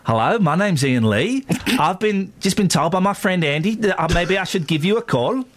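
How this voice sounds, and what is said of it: Wandering put-on Australian-to-English accent. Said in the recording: “My accent started off Australian, went via South Africa, and ended up in Swindon. It was awful.”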